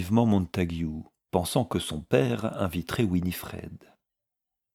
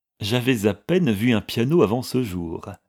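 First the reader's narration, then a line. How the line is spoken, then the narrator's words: Cheerful reply. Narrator (French): répondit gaiement Florence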